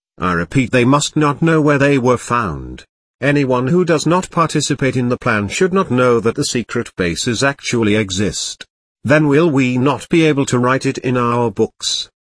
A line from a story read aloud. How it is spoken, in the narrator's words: I asked